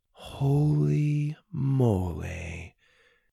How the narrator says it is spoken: she said slowly

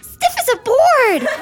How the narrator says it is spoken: Colette squealed

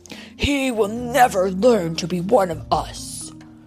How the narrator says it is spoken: Kerchak growled

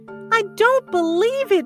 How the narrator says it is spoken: wailed Penda

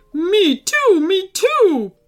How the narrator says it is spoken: barked Phoebe urgently

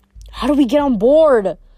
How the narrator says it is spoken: Annabeth shouted over the noise of the waves

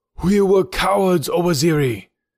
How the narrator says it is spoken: cried Bazuli

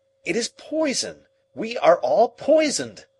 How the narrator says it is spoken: I cried again

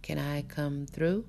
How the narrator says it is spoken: I asked calmly

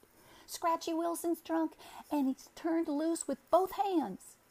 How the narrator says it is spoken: a young man who suddenly appeared in the open door, and he cried

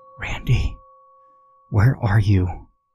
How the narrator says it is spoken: I whispered

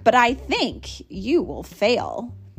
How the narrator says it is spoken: sneered the bird

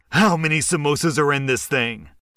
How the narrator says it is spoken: angrily said

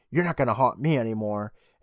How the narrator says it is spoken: Reed, who yells at zombie uncle, saying

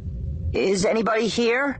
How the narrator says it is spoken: she called out, making her voice tremble slightly

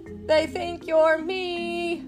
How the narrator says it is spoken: Fieldgar shouted

